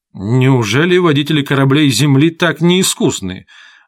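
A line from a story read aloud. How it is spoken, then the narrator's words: Irritated. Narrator (Russian): раздраженно сказал Чойо Чагас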